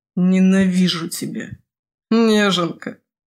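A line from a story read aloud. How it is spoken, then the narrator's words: Good-natured laughter. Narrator (Russian): Беззлобно засмеялся Симмая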